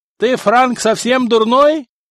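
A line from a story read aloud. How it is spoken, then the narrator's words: Guard yelling. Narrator (Russian): заорал стражник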